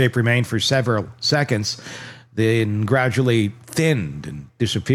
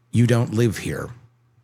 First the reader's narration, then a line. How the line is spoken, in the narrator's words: sat up in bed and said evenly